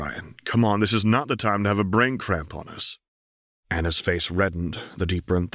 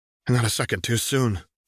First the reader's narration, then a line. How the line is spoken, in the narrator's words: sighed Missy